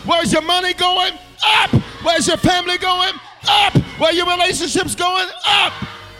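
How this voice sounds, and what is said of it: Shouting. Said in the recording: “I'm shouting”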